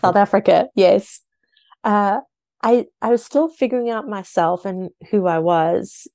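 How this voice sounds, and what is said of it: South African accent. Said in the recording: “don't recognize your accent, you come from South Africa.”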